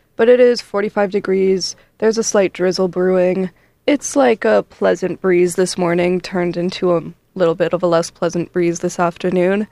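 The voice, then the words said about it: Sick-sounding voice. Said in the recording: “I'm a little sick, so sorry for my voice”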